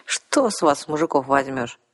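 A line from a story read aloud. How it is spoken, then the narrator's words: Sigh. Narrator (Russian): вздохнула Арсана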